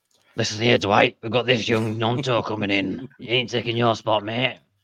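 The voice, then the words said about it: Rough, gravelly impression of Dash. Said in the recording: “That's my Dash impression. Not a very good one. I've just smoked 20 fags before I do it.”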